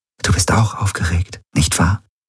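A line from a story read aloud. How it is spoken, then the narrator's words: Whispering. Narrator (German): flüsterte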